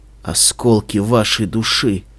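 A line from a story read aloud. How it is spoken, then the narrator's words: Quiet. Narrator (Russian): сказал мой хозяин тихо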